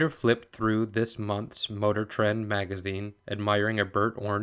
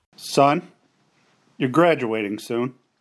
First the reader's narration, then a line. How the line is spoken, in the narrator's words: he said gruffly